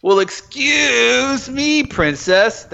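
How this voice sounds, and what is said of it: Annoying cartoon character voice. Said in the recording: “Link had the most annoying voice ... it's a really bad voice for Link”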